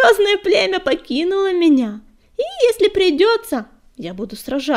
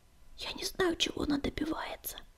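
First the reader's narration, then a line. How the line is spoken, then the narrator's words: Barely audible reply. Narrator (Russian): еле слышно ответил Огнегриф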